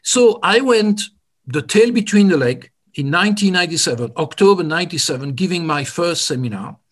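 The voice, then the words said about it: Slight French accent. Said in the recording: “my little bit of French accent”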